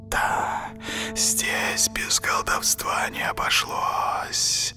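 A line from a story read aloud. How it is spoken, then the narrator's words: Hissing creature. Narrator (Russian): прошипел фамильяр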